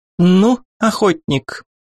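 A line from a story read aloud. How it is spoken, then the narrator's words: Playful, slightly irritated, over phone. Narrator (Russian): Голос в трубке звучал игриво, хотя и слегка раздраженно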